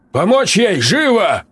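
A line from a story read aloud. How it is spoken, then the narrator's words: Barked order. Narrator (Russian): рявкнул я фельдшеру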